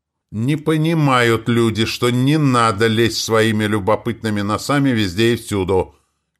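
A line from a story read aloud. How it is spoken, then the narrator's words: Shout through closed door. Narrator (Russian): крикнул Милославский в закрытую дверь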